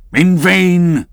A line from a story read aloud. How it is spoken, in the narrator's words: cried Ahab